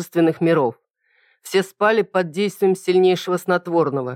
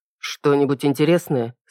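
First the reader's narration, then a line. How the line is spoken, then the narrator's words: Quiet question. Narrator (Russian): спросил негромко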